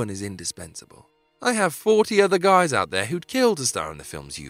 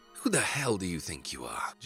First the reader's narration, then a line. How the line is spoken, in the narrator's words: Jack hissed